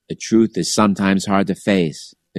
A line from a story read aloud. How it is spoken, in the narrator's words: the Christian bishop sighed